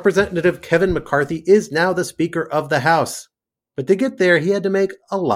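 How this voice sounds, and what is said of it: Usual voice. Nothing is said of it.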